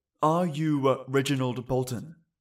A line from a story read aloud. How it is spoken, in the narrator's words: the officer asked